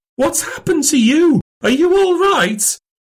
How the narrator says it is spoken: The nurse cried out

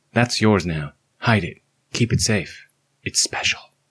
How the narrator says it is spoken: As calmly and clearly and kindly as I could, I whisper

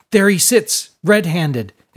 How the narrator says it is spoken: exclaimed with a theatrical flourish

